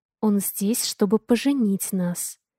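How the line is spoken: Tender whisper in ear. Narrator (Russian): ласково шепнул мне на ухо Авалон

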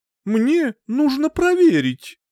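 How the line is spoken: Exclaimed. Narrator (Russian): воскликнула

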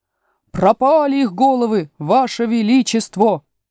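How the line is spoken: Soldiers bellowing. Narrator (Russian): гаркнули солдаты

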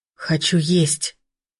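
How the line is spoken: Hoarse wheeze. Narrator (Russian): прохрипела Ирка

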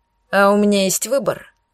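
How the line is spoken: Father's gloomy snort. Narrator (Russian): мрачно хмыкнул отец

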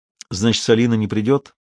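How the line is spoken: Even-voiced question. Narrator (Russian): ровным голосом спросил он

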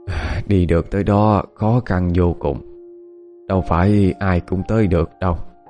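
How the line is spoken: Sighing. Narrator (Vietnamese): Cụ cố nghe nói vậy thì liền thở dài

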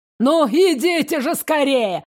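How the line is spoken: Shouting. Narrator (Russian): кричал Римас

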